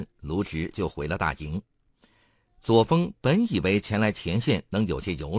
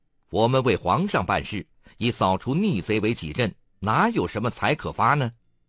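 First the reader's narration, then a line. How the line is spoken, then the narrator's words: Loud reply. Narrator (Chinese): 卢植大声回答说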